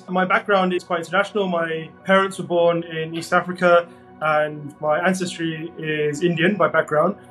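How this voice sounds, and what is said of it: British accent. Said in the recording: “I'm from the UK, as you might be able to hear in my voice.”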